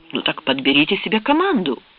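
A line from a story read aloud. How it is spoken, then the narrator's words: Excited exclamation. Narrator (Russian): воскликнул Хеллер возбужденно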